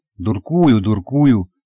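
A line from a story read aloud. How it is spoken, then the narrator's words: Frightened exclamation. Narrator (Russian): испуганно воскликнул супруг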